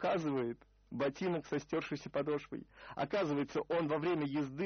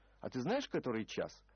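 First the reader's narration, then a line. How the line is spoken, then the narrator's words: Indignant question. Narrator (Russian): возмущенно спросил писатель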